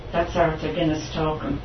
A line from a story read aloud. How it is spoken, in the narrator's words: my mum says